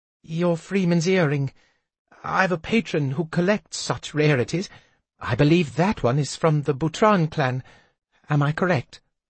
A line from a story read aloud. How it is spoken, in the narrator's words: She asked it so hesitantly, as if expecting that at any moment I might fly into a rage